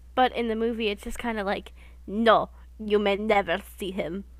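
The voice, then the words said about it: Put-on Russian accent. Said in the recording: “good impression ... I was trying to do Russian”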